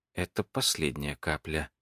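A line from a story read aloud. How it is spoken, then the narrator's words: Muttered. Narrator (Russian): пробормотала она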